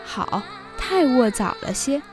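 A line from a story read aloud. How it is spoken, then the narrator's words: Laughing. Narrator (Chinese): 宝玉笑道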